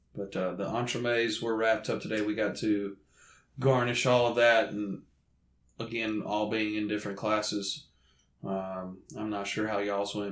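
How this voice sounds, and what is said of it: Southern American accent. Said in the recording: “this southern accent, it's hard to pronounce French terminology”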